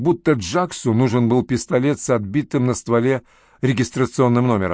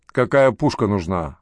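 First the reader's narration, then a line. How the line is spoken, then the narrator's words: Grumbling. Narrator (Russian): пробурчал Ральф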